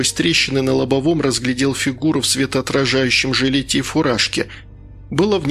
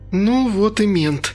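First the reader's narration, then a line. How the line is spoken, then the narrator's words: Sigh. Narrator (Russian): вздохнула Инга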